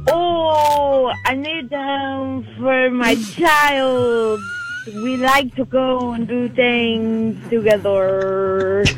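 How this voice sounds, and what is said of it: Very poor put-on French accent. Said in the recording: “in a French accent ... French accent ... that might have been the worst French accent I have ever heard in my life”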